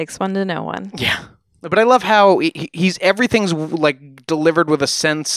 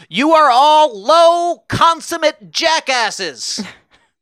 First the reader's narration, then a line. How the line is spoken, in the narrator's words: Guiteau stepped forward to yell